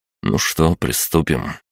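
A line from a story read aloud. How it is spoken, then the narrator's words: Mutter. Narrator (Russian): пробормотал я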